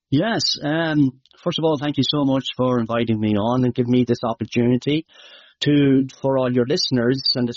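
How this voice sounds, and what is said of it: Irish Midlands accent. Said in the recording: “My accent might be hard to understand ... Athlone, County Westmead, Ireland”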